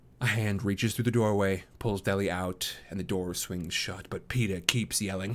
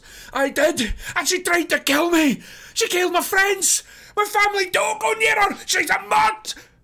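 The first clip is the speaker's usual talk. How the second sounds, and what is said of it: Frantic, shouting character voice. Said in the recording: “Says ... in a frantic voice.”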